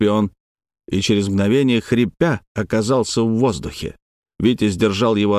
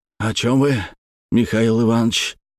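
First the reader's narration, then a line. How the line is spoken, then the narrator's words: Hoarse wheeze. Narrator (Russian): просипел тот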